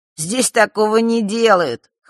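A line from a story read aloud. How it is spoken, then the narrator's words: Snorting. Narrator (Russian): хмыкнул Маар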